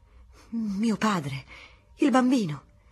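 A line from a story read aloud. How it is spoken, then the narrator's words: Exclaiming. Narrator (Italian): esclamava Teresa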